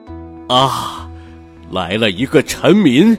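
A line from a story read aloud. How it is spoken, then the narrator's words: Excited exclamation. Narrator (Chinese): 当他看见小王子时，喊了起来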